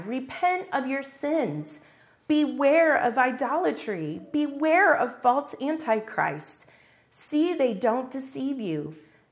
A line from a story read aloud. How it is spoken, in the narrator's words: cried